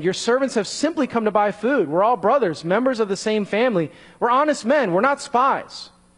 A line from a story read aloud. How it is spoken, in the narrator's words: they exclaimed